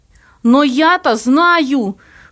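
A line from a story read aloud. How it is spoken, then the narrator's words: Pale man's outcry. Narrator (Russian): выкрикнул бледный Плоткин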